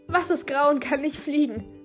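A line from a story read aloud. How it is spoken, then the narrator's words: Question dissolving into giggles. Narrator (German): fragte und bekam einen Kicheranfall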